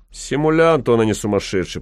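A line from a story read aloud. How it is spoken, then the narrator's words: Grumbling. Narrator (Russian): проворчал господин штаб-врач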